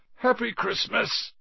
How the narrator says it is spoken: said Ron sleepily

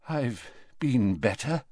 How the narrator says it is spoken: said Dumbledore weakly

